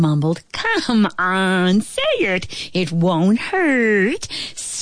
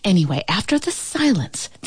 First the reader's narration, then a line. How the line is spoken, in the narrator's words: the ant whispered